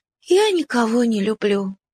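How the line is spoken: Sighing puppy. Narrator (Russian): вздохнул щенок

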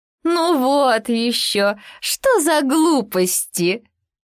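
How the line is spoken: Hare guffawing. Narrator (Russian): захохотала зайчиха

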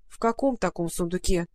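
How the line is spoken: Grumbling. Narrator (Russian): проворчала Маруся

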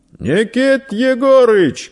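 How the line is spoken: Shouted across the street. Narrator (Russian): крикнул он кому-то через улицу

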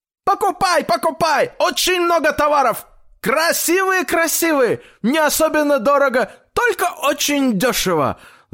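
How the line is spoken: Loud shouting close by. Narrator (Russian): Закричали у дедушки прямо над ухом

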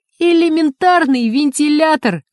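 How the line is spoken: Joyful proclamation, nervous laugh. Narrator (Russian): радостно провозгласил Синица и нервно рассмеялся

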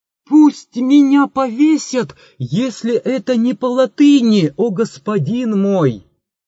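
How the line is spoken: Sudden shout. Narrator (Russian): Селим вдруг закричал

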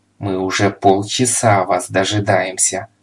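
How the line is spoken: Furious growl. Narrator (Russian): в ярости зарычал муж

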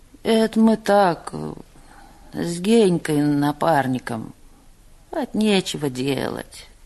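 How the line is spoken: Mumbling. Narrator (Russian): пробормотал Пека

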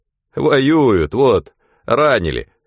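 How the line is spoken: Laughing. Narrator (Russian): Спирька опять засмеялся

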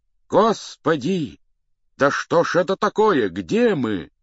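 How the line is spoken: Cried out, voices unrecognizable. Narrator (Russian): вскрикнули оба не своим голосом

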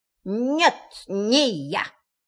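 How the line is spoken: Strangely altered voice. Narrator (Russian): сказал кролик совершенно не своим голосом

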